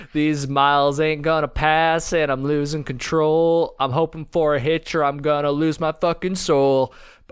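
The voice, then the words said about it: Sung in a country style with twang. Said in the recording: “sounded more like a country rendition ... It's got some twang. It's got a little bit of twang.”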